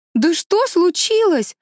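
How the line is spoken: Shouted. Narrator (Russian): закричала Мэриголд

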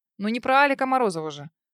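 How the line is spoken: Snorting. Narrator (Russian): хмыкнул Журавлев

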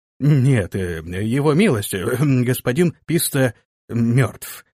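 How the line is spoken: Strained, forced out. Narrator (Russian): сумел выдавить из себя посыльный

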